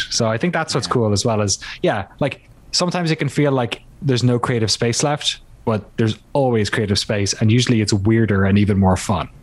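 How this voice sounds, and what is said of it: Irish accent. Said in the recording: “It's the accent ... an Irish accent just sounds like you're smart”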